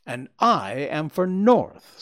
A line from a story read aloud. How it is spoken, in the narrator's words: said I